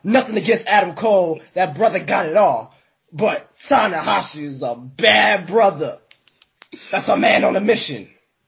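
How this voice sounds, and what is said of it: Stephen A. Smith impression. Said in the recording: “that Stephen A impression is glorious”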